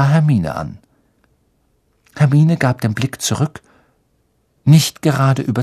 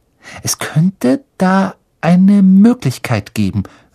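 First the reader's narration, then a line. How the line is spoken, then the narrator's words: Slow, lowered voice. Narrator (German): sagte Hermine langsam, … senkte sie ihre Stimme noch weiter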